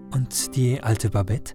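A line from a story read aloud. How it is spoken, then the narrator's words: Plain question. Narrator (German): fragt er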